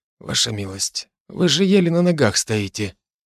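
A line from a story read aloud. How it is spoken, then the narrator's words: Barely audible. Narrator (Russian): еле слышно добавил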